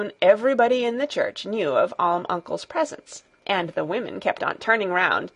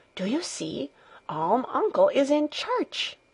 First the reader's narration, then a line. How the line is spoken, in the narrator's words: every one was nudging his neighbor and whispering